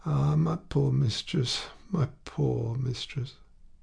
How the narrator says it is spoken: Félicité was sobbing

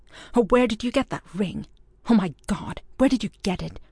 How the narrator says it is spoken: the voice that was so like Keith's, was asking him breathlessly, fiercely

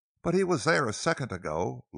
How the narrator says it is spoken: Laura cried out

